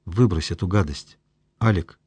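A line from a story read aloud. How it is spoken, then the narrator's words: Quiet request. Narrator (Russian): тихо попросил Мишка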